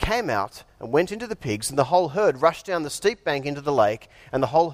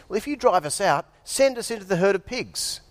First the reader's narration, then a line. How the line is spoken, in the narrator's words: the demons begged Jesus